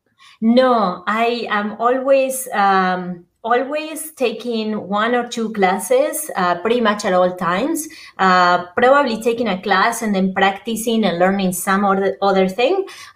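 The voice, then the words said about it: Argentine Spanish accent in English. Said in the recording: “I'm originally from Argentina. I came to the States a little bit over 25 years ago and decided to keep my accent.”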